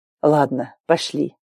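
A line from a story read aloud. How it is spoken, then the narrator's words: Sighing. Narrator (Russian): вздохнул он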